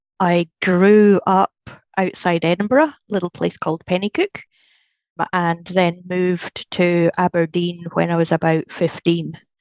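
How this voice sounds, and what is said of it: Mellowed Scottish accent. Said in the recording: “whereabouts is that accent from? Whereabouts in Scotland? ... my accent's non-typical ... my accent's probably mellowed a little bit. I certainly talk slower”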